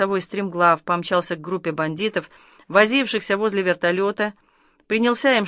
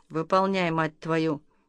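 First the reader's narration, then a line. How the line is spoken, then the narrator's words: Through gritted teeth. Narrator (Russian): полковник процедил сквозь зубы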